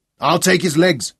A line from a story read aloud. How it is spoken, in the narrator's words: he grunted